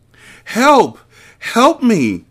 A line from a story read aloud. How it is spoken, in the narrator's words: she yelled desperately